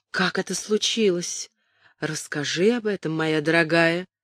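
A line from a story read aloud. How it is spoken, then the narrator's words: Quiet. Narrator (Russian): сказала она тихо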